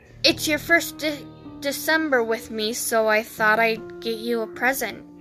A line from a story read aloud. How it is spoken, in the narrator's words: Dean murmured